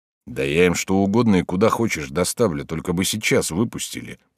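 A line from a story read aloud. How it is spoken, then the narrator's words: Grumbling. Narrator (Russian): проворчал Окунев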